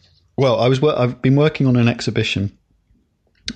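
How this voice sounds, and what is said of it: Usual voice. Nothing is said of it.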